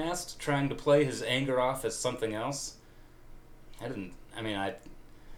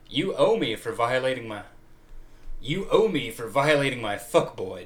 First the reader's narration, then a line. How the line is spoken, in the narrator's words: Tim grumbled